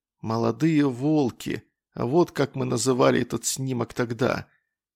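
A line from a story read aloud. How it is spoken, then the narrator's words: Whispered. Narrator (Russian): прошептал Берестов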